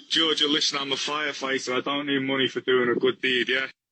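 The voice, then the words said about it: Speaks with an accent. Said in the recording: “He's got an accent.”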